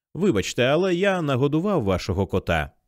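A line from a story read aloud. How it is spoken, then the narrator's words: Casual tone, man. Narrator (Ukrainian): невимушеним тоном почав чоловік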